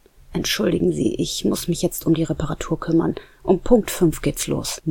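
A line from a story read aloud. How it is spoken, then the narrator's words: Muttered. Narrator (German): murmelte er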